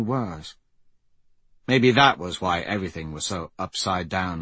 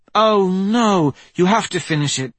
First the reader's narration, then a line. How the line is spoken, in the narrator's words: Bryn pleaded